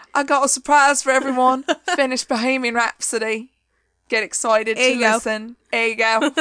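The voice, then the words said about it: Attempted British accent, sounding Cockney. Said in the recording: “they're just Cockney now. My British accent quickly went to Cockney, and I'm sorry that I'm not better at this ... you're already doing better than me ... terrible accents”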